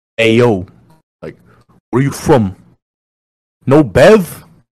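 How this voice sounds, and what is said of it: Put-on New York accent. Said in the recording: “the typical New York accents. Lower your tone”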